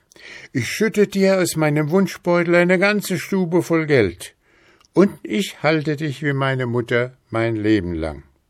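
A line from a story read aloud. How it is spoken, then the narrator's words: Man calling, newly courageous. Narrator (German): Da faßte der Mann neuen Mut und rief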